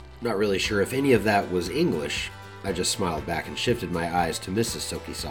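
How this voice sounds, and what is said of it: Usual voice. Nothing is said of it.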